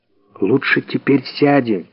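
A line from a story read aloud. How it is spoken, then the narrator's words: Whisper. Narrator (Russian): прошептал он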